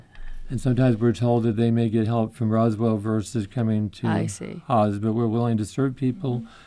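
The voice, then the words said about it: New England accent. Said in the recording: “My New England accent is coming out”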